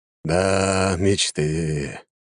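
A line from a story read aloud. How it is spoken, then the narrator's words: Sighing emperor. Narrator (Russian): вздохнул император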